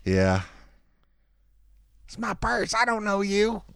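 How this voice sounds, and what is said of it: Imitates a cartoon character's voice. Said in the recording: “I do a couple of voices.”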